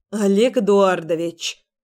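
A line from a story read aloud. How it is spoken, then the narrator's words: Stern. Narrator (Russian): начала я строго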